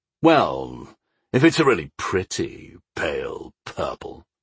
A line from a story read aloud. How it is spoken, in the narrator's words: Omar grumbled